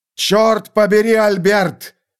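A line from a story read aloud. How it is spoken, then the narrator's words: Shouting. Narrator (Russian): закричал я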